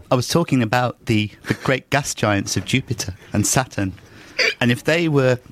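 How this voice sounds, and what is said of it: Brian Cox impression. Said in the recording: “your newest impression, Brian Cox ... It's so unlike your whole timbre, everything about you. It's totally different.”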